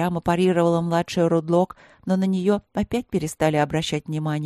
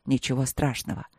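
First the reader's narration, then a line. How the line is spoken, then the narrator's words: Grumbled. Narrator (Russian): буркнул Вэйши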